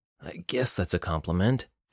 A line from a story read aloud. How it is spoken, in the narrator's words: Jonathan groaned